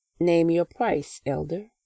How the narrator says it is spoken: I said

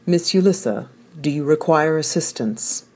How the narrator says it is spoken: asked Three

